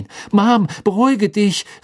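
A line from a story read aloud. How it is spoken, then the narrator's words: Called out. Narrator (German): rief Ron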